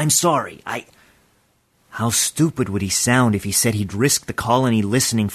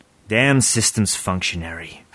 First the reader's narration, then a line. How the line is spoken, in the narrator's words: Father grunted